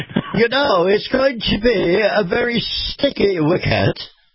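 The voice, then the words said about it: Put-on British accent. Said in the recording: “as our friends across the pond might say ... we have to turn on the accent for that”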